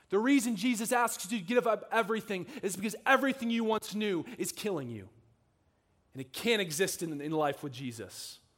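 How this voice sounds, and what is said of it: Harsh preacher voice. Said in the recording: “that's my harsh preacher voice.”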